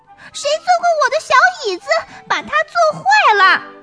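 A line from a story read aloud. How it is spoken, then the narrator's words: Squeaky, shrill cub. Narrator (Chinese): 小熊尖声尖气的叽叽叫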